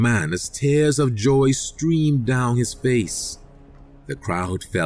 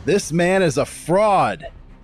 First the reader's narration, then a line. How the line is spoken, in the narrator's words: shouted